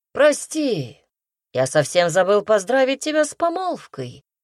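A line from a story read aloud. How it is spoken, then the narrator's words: Loud smiling exclamation. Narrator (Russian): Громко воскликнул он, широко улыбаясь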